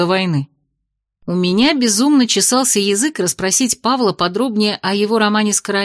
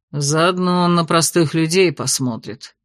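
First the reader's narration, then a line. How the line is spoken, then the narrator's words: Grim reluctant mutter. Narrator (Russian): мрачно буркнул Павел, не испытывая ни малейшего восторга перед грядущим посещением столицы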